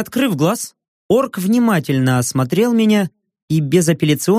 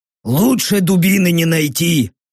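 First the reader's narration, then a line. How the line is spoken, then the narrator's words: Grumbling orc. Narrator (Russian): проворчал орк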